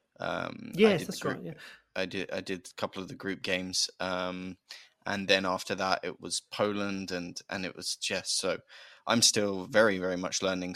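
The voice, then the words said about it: British accent. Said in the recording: “my accent. ... British voice”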